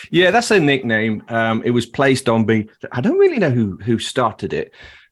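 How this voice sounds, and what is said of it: Blended British regional accent. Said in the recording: “I can't tell where in the UK your accent's supposed to come from ... No one can place me. So I've got one of these unique accents ... a bit of a Yorkshire accent ... London area ... Liverpool. So it all blended in ... the Leicester accent”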